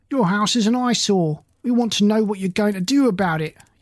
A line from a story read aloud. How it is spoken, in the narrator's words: yelled